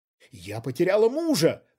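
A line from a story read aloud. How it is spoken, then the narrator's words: Indignant shout. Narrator (Russian): возмущенно выкрикнула Рьяна Мнишек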